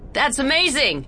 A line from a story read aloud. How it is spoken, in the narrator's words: she yelled back